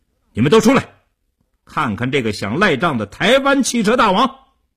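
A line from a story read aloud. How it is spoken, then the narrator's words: Fierce raised shout. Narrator (Chinese): 叶成坚恶狠狠地，提高声音对里屋喊道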